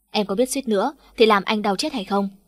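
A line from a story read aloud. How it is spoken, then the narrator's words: Sulky, resentful. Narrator (Vietnamese): Hạ Trần Ninh hậm hực nói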